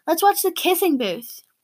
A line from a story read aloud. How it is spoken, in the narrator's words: Meredith exclaims